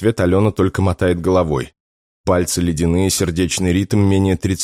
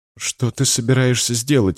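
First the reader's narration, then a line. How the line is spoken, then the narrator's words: Frightened whisper. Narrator (Russian): испуганно шепчет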